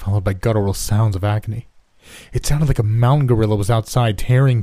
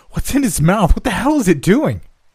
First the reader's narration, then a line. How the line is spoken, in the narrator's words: Someone else exclaimed in terror